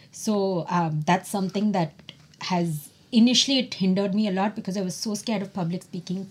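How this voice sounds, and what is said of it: Non-American accent. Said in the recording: “my accent is so different from an American accent.”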